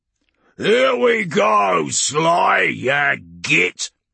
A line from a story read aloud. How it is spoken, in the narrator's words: Urgork bellowed, grinning from tusk to tusk